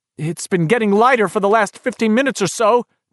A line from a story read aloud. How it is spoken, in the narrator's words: Beverly shouted back